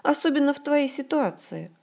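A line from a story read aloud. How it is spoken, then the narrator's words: Cheerful summary. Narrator (Russian): бодро подытожила подруга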